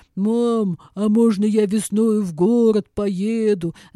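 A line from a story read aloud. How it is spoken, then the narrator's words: Deep bass voice. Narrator (Russian): забасил Миша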